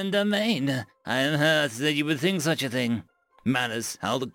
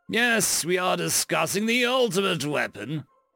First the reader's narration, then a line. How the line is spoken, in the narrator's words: Growl roared